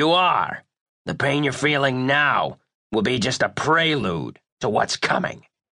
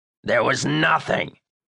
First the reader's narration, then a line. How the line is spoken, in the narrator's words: growled Primo